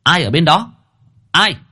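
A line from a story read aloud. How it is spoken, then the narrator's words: Fierce shout. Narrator (Vietnamese): Cô Hương quắc mắt quát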